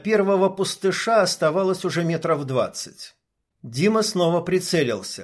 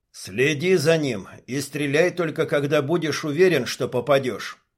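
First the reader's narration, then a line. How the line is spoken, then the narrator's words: Plain. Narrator (Russian): сказал горец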